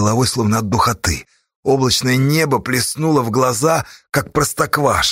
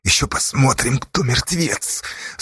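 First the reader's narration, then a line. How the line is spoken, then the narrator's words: Through gritted teeth. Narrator (Russian): Сквозь зубы ответил Асташа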